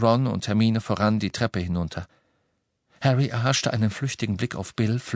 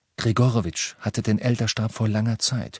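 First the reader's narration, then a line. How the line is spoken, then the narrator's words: Plain. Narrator (German): sagte er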